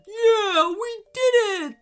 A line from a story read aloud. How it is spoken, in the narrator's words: squealed Scruffy with delight